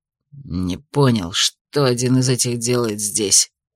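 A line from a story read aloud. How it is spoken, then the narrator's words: Grumble. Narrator (Russian): буркнул Томс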